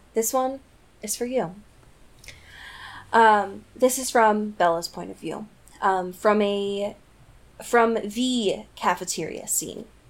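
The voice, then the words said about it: Radio announcer voice. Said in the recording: “I'm going to turn on my radio voice”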